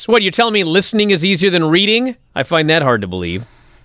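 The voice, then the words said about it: Sarcastic tone. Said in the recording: “I'm being sarcastic”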